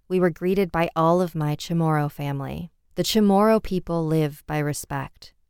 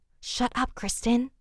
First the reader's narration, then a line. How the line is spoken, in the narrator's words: they both said in an almost whispering voice